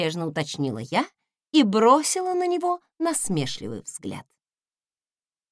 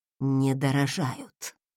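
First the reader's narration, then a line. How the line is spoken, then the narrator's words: Grumpy mutter. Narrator (Russian): буркнул секретарь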